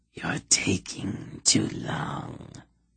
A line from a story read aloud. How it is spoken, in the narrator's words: the whisper said